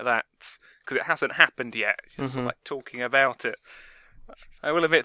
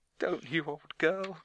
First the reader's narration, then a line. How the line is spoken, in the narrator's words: Chuckle